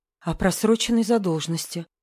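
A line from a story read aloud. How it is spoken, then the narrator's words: Trembling whisper. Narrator (Russian): прошептала Света, и голос у нее дрогнул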